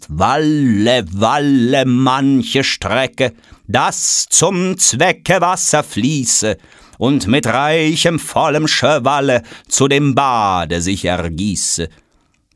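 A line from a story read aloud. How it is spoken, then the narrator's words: Reading poem aloud. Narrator (German): Goethe nochmal laut aus dem gemeinsamen Gedicht liest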